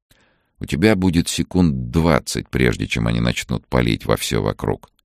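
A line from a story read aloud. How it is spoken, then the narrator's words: Calm explanation. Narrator (Russian): спокойно объяснял Сергей Владимирович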